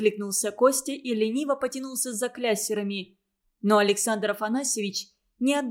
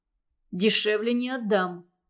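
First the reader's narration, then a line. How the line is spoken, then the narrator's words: Rough, rude. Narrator (Russian): сказал Костя грубо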